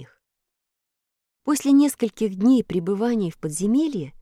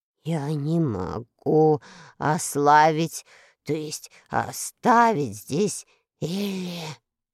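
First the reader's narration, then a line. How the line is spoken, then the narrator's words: Muffled, hollow. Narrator (Russian): глухо проговорил Страшила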